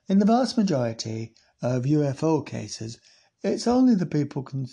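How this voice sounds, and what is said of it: Put-on Sheffield-sounding English accent. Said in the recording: “That's more like Sheffield, isn't it? ... I can't believe I'm not doing a Devon accent.”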